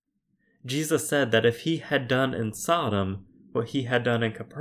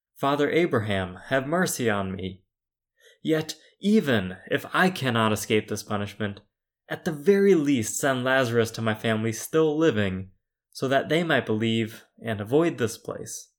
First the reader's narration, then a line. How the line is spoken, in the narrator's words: The rich man cried out